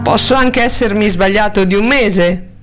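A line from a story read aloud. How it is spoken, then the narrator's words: Plain. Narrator (Italian): le disse questi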